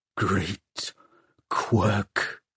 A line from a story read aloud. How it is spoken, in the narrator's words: hissed Valentine